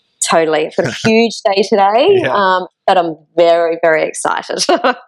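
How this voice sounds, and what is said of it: Australian accent. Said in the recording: “she's over in Australia ... my strange accent”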